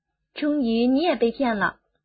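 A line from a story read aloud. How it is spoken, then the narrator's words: Laughing. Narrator (Chinese): 苏荣…笑道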